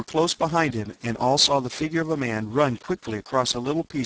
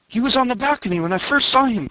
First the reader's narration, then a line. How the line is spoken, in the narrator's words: cried Horvastus